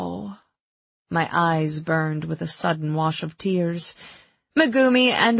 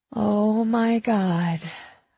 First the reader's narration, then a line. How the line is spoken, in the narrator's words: I breathed, my heart breaking more than a little